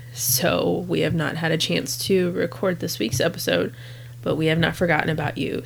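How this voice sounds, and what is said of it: Sick, congested-sounding voice. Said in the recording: “I don't know if you can tell from my voice or not, but I am sick”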